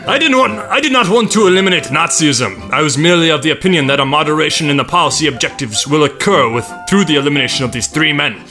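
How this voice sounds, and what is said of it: Decent put-on German accent. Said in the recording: “That wasn't that bad of a German accent”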